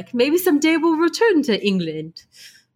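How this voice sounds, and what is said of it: Put-on British accent impression. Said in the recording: “That's my English Rolf Billy Zane ... Impression. ... A British accent. ... You did a better job.”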